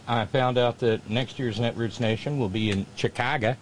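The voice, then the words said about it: Bad put-on Chicago accent. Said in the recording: “that's my best approximation of a bad Chicago accent.”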